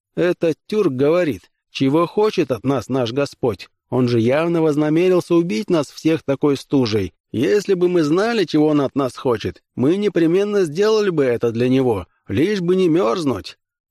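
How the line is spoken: Laughing. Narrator (Russian): Смеясь, Такин сказал

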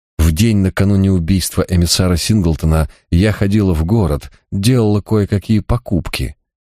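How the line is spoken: Girl, after deep sigh. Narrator (Russian): глубоко вздохнув, сообщила девушка

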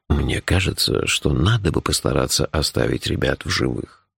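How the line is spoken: Unexpectedly soft. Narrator (Russian): неожиданно мягко сказал Джуфин

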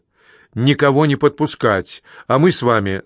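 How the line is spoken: Plain. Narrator (Russian): сказал он мне

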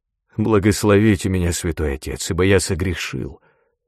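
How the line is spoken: Slurred mumble. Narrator (Russian): Слегка заплетающимся языком он пробормотал

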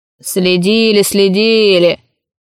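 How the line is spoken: Grumbling old man. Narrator (Russian): проворчал старик

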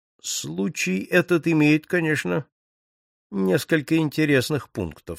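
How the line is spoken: Quiet tone. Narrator (Russian): сказал он своим тихим тоном

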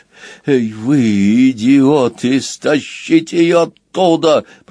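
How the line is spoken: Growling. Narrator (Russian): прорычал Красвин

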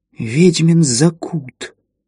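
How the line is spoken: Forced-out words. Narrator (Russian): выдавила Марта Уэбб

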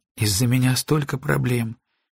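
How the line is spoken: Sad. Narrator (Russian): печально произнесла Грейс

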